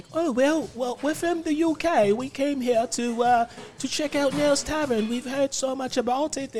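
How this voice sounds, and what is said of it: Put-on UK accent. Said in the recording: “that's my UK thing... It's a really, really good accent.”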